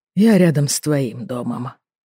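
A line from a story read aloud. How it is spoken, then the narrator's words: Sighing. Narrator (Russian): вздохнул он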